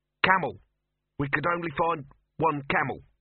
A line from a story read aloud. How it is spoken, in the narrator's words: said the youth